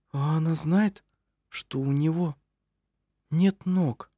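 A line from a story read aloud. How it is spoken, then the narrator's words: Quiet question. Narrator (Russian): тихо спросила Анна Грета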